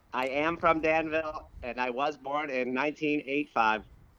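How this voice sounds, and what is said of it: Electronically altered robot voice. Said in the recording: “Robot voice ... I am talking through a voice modification machine to hide my true identity ... Are you actually acting like a robot, too?”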